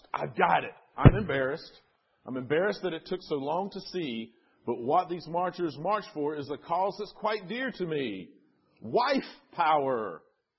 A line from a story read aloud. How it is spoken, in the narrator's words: exclaimed